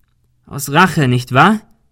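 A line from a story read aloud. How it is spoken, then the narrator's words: Called out. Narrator (German): rief Ben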